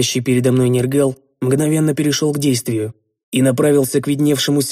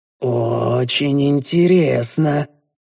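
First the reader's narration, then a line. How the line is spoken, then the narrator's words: Drawling. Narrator (Russian): протянул я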